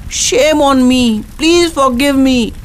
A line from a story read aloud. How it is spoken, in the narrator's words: She cried in shame